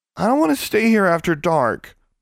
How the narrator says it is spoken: Bonnie said, her voice quavering very slightly

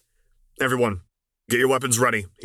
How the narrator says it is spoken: he snapped

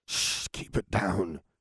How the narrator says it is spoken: hissed James

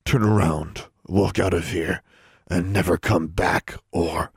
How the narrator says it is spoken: John squeezed and growled

